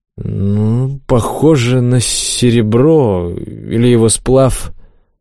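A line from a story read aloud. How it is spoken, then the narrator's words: Uncertain voice. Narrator (Russian): Олег неуверенно произнес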